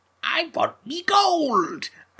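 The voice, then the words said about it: Put-on leprechaun character accent. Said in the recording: “That's better than what Warwick Davis does in that first film. ... Accent-wise.”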